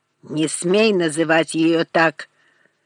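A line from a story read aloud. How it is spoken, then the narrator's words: Growl. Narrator (Russian): прорычал Морган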